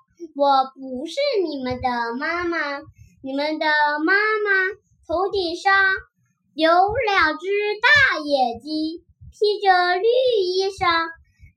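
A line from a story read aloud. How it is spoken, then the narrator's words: Smiling tortoise. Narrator (Chinese): 乌龟笑着说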